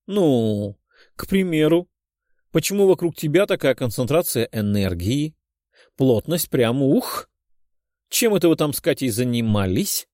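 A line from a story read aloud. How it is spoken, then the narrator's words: Giggling question. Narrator (Russian): Хихикая спросила Ирина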